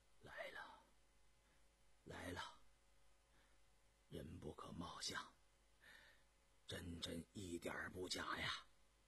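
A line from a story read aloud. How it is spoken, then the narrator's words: Soft. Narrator (Chinese): 允祥忽然轻声说道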